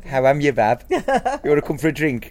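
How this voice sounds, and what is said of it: Put-on Birmingham Brummy accent. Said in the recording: “the Brummy accent ... I should try it out”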